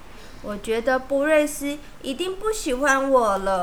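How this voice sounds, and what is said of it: Usual voice. Nothing is said of it.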